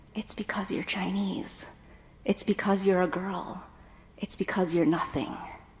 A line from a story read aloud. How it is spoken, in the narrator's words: a small voice inside of me whispered